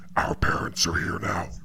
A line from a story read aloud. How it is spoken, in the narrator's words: His voice lowers three octaves as he growls